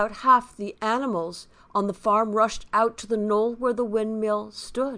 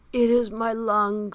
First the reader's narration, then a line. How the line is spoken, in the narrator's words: said Boxer in a weak voice